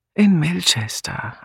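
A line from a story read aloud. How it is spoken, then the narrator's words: Tired answer. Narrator (German): antwortete Julia müde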